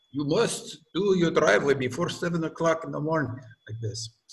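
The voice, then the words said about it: Put-on Russian accent. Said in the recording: “Sorry, that was a Russian accent.”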